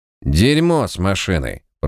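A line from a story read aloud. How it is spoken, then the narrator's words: Grumbling mutter. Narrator (Russian): пробурчал клоун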